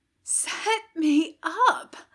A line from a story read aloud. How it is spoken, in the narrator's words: Aziraphale rasped